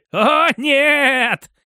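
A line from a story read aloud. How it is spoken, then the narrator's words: Prisoner's hysterical laughter. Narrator (Russian): истерично расхохотался пленный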